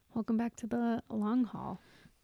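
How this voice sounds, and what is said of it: Quiet, sultry sexy voice. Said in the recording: “You always do your sexy voice when we do our podcast... You get so quiet.”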